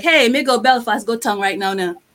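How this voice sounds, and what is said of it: Antiguan dialect. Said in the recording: “my dialect. I'm not losing my Antiguan twangs”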